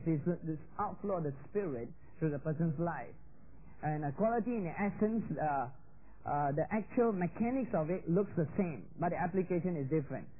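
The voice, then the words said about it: Noticeable non-native English accent. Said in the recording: “my accent is a bit different”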